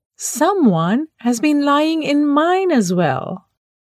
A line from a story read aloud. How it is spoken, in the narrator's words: The others shouted